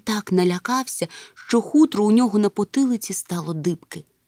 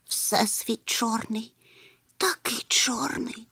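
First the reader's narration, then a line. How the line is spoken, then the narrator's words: Whisper. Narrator (Ukrainian): прошепотів Чмих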